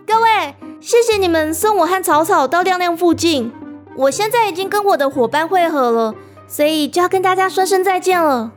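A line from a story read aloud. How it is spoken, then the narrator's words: Smiling. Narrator (Chinese): 渊羽对其他的动物们一笑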